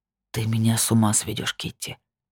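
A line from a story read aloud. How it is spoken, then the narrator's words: Hot breathy whisper. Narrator (Russian): прошептал он, а по коже побежали щекотные мурашки от его горячего дыхания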